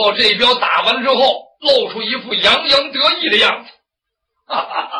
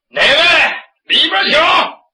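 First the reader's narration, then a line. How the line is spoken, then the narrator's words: Shouting. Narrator (Chinese): 酒亭院子里边有人喊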